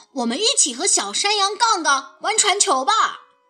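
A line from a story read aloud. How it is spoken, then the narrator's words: Shouting. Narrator (Chinese): 富斯大喊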